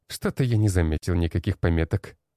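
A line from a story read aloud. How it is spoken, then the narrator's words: Snort. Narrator (Russian): хмыкнул тот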